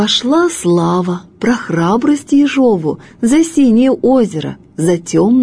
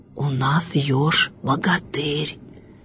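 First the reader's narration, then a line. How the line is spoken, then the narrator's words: Frightened whispering. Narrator (Russian): Шепотом со страху говорили звери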